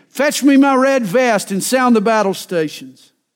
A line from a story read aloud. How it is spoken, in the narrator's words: the courageous captain shouted again